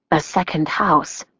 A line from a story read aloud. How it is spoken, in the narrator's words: the prosecutor said, her voice hushed